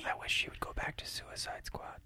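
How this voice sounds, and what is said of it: Whispering. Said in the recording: “I don't know why I'm whispering?”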